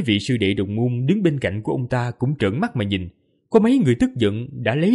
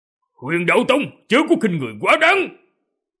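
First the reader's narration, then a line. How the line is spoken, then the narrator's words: Stern shout. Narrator (Vietnamese): Hoàng Long chân nhân trầm mặt quát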